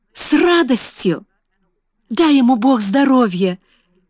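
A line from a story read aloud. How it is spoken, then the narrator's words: Cheerful good-natured exclamation. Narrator (Russian): воскликнула Даусон своим веселым добродушным голосом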